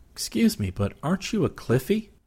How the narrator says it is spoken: The girl giggled nervously

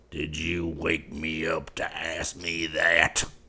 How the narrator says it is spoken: snarled Bryant

